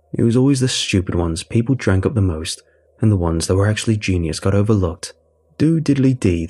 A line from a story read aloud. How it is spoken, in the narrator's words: they said